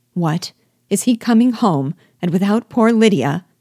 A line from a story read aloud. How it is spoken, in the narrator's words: she cried